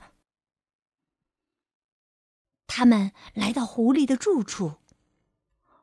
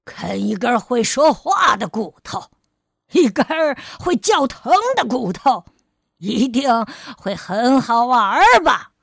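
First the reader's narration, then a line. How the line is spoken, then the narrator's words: Harsh shout. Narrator (Chinese): 狐狸厉声叫道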